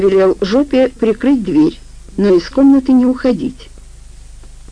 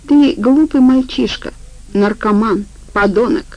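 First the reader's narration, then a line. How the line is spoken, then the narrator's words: Clipped, emphatic. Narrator (Russian): отчеканил Афанасий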